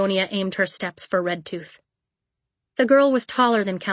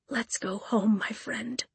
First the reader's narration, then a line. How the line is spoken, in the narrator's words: she whispered